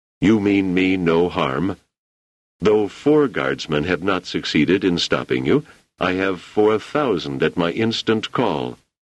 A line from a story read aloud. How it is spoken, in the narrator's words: He said calmly